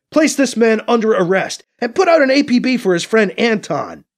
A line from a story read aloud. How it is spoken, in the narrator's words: Alibi shouts into Piccolo's face